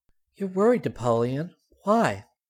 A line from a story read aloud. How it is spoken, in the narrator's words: He sighed in exasperation